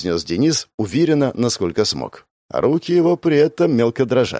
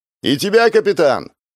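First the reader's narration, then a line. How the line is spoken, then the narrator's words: Loudest shout. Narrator (Russian): громче всех выкрикнул Павел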